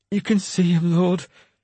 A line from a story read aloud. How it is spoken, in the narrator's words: Beedwulf said with a sudden pleading energy